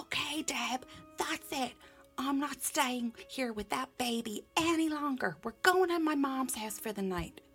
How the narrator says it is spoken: He yelled up the stairs to me

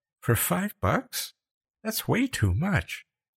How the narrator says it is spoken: Becca said in a faint voice

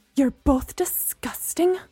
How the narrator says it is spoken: Gemma spat

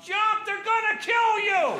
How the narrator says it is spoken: yell out

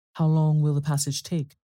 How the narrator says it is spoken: my uncle asked

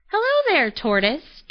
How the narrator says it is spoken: chirped Robin

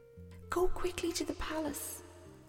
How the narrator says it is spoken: whispered the lad to Jason

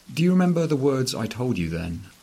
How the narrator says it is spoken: I ask her, inventing wildly

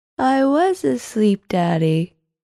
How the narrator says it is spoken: she said, yawning, her voice thick with tiredness

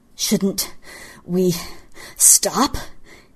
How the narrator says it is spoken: he panted

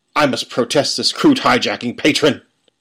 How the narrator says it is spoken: Ferris sputtered

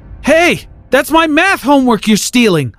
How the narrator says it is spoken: yelled after him

